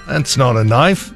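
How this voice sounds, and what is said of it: Poor put-on Australian accent. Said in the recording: “Horrible Australian accent.”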